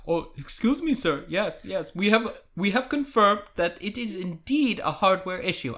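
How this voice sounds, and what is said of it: Imitates another person's voice. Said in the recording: “that was actually a really good impression.”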